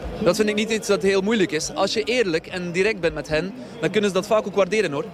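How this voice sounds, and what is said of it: Lovely, sweet-sounding accent. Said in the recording (Dutch): “Ik ben helemaal verliefd op zijn accent. Wat heerlijk om te horen. ... dat klonk heel lief inderdaad.”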